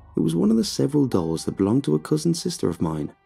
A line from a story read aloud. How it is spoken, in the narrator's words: he said